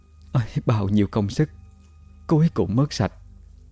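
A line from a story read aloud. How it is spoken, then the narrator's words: Sad soft sigh. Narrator (Vietnamese): khuôn mặt chị thoáng buồn, khẽ thở dài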